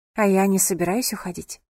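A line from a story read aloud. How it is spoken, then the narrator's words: Calm. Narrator (Russian): спокойно произнесла София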